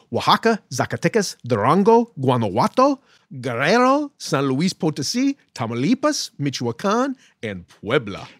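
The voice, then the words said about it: Speaks with a beautiful accent. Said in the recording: “with your beautiful accent”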